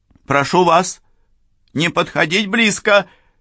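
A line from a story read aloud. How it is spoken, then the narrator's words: Shouted. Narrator (Russian): крикнула Сакс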